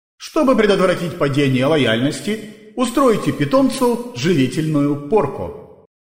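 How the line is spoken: Cheerful suggestion. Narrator (Russian): весело предложила система

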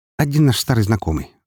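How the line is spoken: Tossed over shoulder, on the move. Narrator (Russian): бросила она через плечо, на ходу

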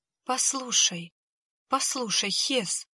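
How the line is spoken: Tearful whisper. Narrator (Russian): едва не плача зашептал он

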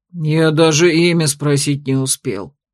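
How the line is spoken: Disappointed deep voice. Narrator (Russian): огорченно пробасил Ранс

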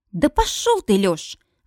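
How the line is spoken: Indignant snort. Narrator (Russian): возмущенно фыркает Стейси

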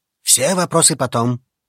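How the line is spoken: Muttering. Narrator (Russian): пробормотал мужчина

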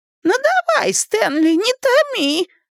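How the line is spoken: Falsetto exclamation. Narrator (Russian): фальцетом воскликнул Ричи

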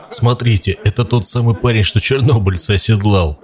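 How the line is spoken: Several men laughing. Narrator (Russian): другие сталкеры, смеясь, говорили

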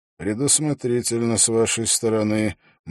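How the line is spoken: Grim smile. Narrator (Russian): мрачно улыбнулся Холт

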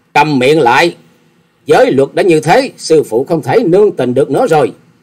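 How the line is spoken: Angry loud shout. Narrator (Vietnamese): Hà Xà Tiên Tử giận dữ quát to

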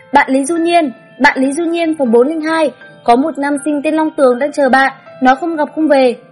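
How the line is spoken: Shouting through loudspeaker. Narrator (Vietnamese): dì quản lý còn cầm loa liên tục, lại liên tục gào lên

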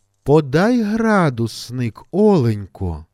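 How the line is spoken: Tender, affectionate request. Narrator (Ukrainian): Ніжно та ласкаво просить Даша

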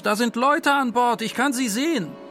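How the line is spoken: Man's sudden shout. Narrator (German): Plötzlich rief ein Mann vorne aus

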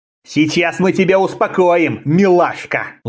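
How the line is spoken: Malicious threat. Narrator (Russian): злобно пообещал один из облаченных в зеленое

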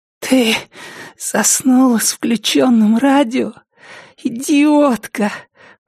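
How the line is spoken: Hoarse rasp. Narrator (Russian): прохрипела Триша

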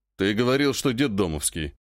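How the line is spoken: Snorted. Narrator (Russian): хмыкнул Челюсть

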